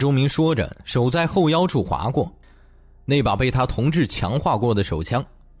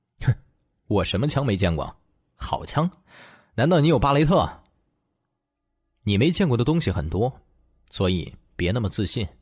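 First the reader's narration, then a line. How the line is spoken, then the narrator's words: Cold sneer. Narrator (Chinese): 他冷冷一笑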